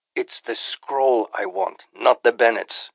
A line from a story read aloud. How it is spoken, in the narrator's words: Farouk growled